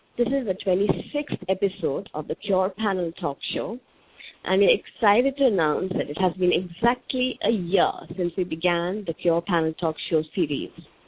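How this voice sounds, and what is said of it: Hoarse voice. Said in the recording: “I'm not keeping very well today, and I so might sound a bit hoarse.”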